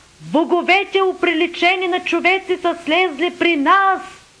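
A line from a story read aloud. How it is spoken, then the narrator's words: Crowd shouting loudly. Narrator (Bulgarian): народът извика със силен глас, казвайки по ликаонски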